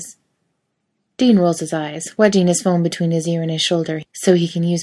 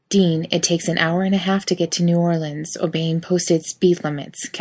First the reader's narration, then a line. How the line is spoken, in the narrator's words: Cass says flatly